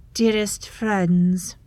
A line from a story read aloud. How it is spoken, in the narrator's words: calls, her voice like ice on ice